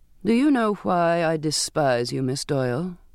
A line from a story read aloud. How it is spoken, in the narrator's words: said evenly, without emotion